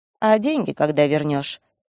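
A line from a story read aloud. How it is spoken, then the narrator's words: Feigned casual question. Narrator (Russian): Деланно небрежным тоном спросила сестра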